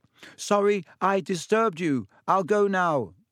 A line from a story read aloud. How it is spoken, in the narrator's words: he half shouted